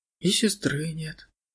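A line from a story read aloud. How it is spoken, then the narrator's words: Sad girl. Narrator (Russian): грустно добавила девушка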